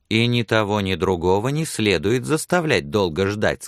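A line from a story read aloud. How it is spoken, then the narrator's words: Plain. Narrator (Russian): сказала она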